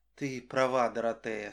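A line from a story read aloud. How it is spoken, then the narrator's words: Said with deep sigh. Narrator (Russian): сказала она и глубоко протяжно вздохнула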